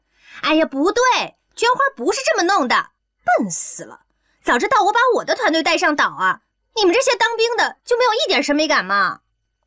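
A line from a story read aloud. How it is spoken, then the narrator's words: Loud rude shouting girl. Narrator (Chinese): 一个好像什么造型师的女孩子，声音大大的吆喝着这些兵痞子，很不客气地喊着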